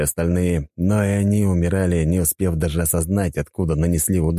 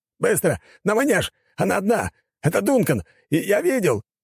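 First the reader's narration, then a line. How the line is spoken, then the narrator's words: Soldier shouting. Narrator (Russian): крикнул еще один солдат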